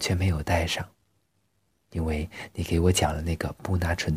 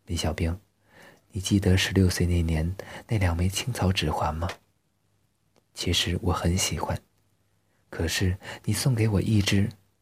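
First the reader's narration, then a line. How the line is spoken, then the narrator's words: Sighing. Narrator (Chinese): 他叹口气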